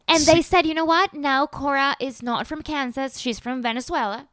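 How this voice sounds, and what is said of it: Slight foreign accent. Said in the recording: “that little accent”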